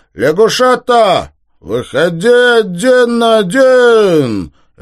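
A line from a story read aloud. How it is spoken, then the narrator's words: Shouted. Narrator (Russian): крикнул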